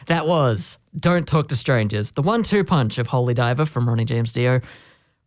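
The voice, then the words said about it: Hoarse voice. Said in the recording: “you can tell that I was singing along with you. My voice has gone hoarse.”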